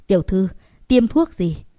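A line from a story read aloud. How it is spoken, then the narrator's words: Breathless worried question. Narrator (Vietnamese): Vệ sĩ hơi thở hổn hển, lo lắng hỏi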